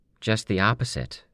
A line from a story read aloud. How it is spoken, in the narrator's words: Darlene said